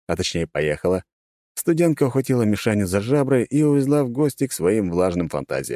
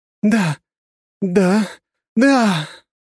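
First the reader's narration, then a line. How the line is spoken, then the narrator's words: Moaning woman, half-questioning. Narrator (Russian): То ли спрашивал, то ли стонал женский голос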